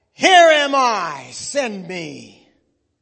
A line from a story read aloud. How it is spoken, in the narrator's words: Isaiah thundered back